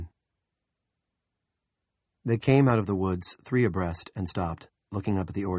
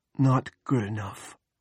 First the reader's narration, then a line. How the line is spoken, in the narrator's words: whispered